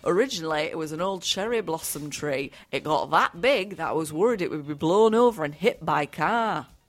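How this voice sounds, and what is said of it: Put-on Northern English accent. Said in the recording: “Should I do it in an accent? ... I went Northern. I feel like Northern was funnier.”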